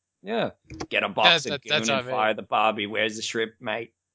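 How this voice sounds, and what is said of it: Bad put-on drunk Australian accent. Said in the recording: “your accent was what was driving me away ... It's really bad. It didn't sound very good ... she was trying to tap into drunk Australian”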